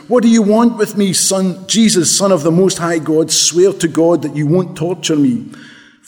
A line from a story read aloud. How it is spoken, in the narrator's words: He shouted at the top of his voice